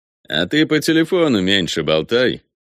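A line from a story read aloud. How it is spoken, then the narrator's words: Snide, mocking tone. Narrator (Russian): ехидно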